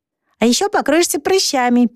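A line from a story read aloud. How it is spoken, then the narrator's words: Squeaky. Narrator (Russian): пискнул Вонючка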